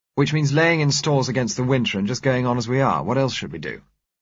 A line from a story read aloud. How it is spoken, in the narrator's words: asked Stephen